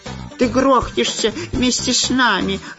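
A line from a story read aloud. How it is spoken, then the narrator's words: Snapping back. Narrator (Russian): огрызнулся шпион Дырка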